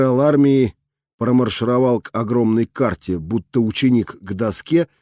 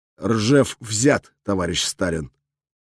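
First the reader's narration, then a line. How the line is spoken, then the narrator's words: Solemn announcement. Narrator (Russian): торжественно объявил он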